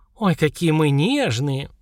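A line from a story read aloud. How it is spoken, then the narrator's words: Indignant snort. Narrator (Russian): Наташа возмущенно фыркнула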